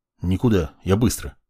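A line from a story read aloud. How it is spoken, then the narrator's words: Gruff mutter. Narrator (Russian): буркнул я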